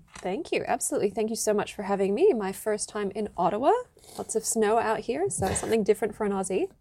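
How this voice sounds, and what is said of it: South Australian accent. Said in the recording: “She has a delightful South Australian accent”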